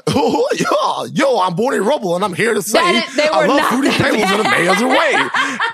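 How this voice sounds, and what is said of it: Good Barney Rubble impression. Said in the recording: “a really good Barney impression”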